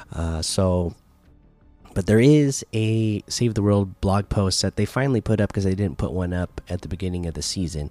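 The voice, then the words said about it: Strained, fading voice. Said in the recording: “I'm starting to lose my voice, so I'm going to save my voice a little bit”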